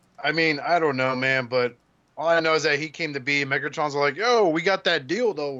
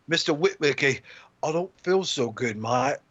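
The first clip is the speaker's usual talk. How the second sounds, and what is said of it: Put-on Australian or British accent. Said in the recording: “I'm not sure if I'm really Australian or I'm British ... change more accents”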